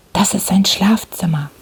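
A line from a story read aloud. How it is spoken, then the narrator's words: Whisper. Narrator (German): flüsterte Holmes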